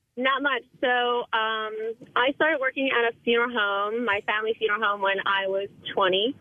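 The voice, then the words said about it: Very young-sounding voice. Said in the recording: “I sound really young ... this lady thought I was, like, 14 years old ... You sound like you're, like, 12.”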